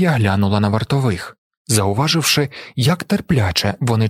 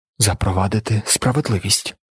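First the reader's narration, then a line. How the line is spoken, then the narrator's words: Muttered. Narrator (Ukrainian): пробурмотіла вона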